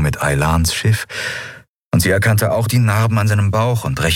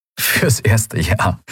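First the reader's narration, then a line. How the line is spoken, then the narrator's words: Laughing. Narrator (German): sagte er lachend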